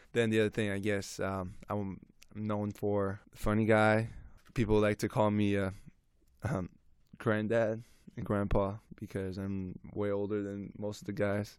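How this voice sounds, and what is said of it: Noticeable accent. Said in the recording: “a lot of people on my on the team laughs um, at my accent because they're just not used to”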